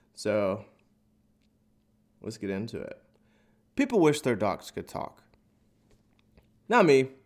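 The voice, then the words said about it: Congested, nasal voice. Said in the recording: “as you can kind of tell from my voice, there's a little snot, nasally shit happening”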